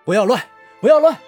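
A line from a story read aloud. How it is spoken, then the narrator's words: Urgent shout. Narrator (Chinese): 左权赶紧喊道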